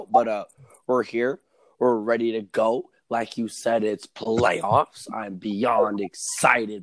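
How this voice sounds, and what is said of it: Raspy, hoarse voice. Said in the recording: “my voice is raspy ... So I'm a little bit raspy.”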